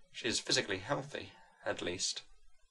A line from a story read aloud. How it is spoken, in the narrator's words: she said gratefully